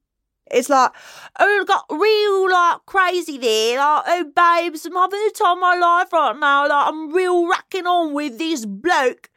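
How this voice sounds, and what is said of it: Put-on Essex English accent. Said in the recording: “I'm obsessed with the Essex accent right now... it's the funniest English accent... with a British accent, it's very bizarre... sounds like someone who's never spoken English and is just imitating what British people sound like”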